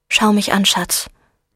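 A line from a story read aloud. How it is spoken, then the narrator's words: Plain. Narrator (German): sagte Laurel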